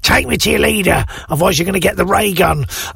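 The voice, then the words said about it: Silly alien voice. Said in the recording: “quite a silly voice”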